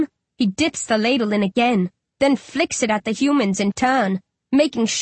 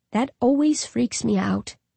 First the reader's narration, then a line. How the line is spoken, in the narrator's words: Dandan murmurs